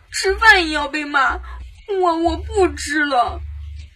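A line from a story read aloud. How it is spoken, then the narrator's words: Crying. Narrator (Chinese): 哭着说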